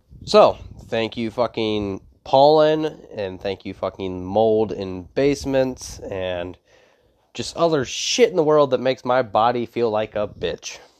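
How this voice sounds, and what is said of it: Congested, sniffly sick voice. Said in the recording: “I am fucking sick. So if that is why I sound weird or you hear me fucking sounding like that I'm sniffing bath salts, it's actually because I am sick.”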